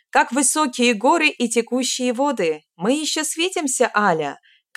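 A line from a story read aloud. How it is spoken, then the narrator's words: Shout after someone. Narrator (Russian): крикнул мне вслед Юэ Лун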